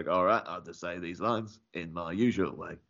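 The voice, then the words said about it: Michael Caine impression. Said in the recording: “you did a great impression.”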